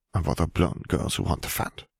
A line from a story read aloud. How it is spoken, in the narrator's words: Fleur muttered